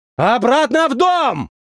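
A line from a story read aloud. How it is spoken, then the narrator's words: Shouted. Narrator (Russian): крикнул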